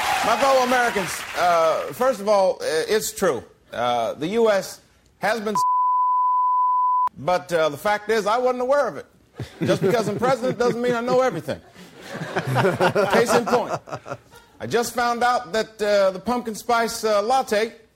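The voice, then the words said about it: Impression of President Obama. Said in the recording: “impersonation of President Obama”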